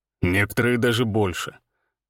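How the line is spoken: Grim smirk. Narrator (Russian): мрачно усмехнулся Всеволод

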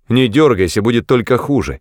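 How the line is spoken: Shouted. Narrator (Russian): крикнул я

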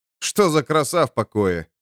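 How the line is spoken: Snorting. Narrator (Russian): фыркнул воин

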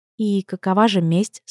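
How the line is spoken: Calm inquiry. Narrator (Russian): спокойно поинтересовалась

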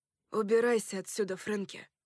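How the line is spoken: Tired voice. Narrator (Russian): Голос оборотня звучал устало

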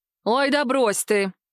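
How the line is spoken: Laughing. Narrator (Russian): Кортни рассмеялась

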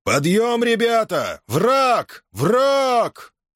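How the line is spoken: Roaring. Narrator (Russian): проревел хорошо знакомый им голос

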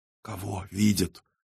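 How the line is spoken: Fearful whisper. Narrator (Russian): прошептала Ньюта, которая боялась признать то, во что уже поверила

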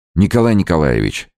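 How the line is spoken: Exclaimed. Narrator (Russian): воскликнул Невельской

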